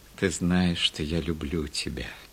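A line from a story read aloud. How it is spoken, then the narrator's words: Tender. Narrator (Russian): сказал он ласково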